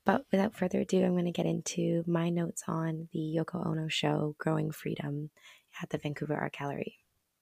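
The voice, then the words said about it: Hoarse, strained voice. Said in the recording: “I apologize that I have lost my voice ... I seem to always lose my voice at the end”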